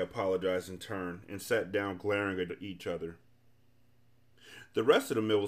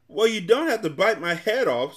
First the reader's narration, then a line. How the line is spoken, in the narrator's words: screamed the terrified Earl